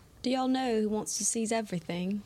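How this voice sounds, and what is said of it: Put-on British accent. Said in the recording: “You're giving a British accent.”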